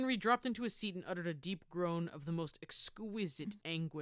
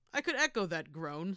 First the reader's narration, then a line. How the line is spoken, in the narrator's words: said Marchdale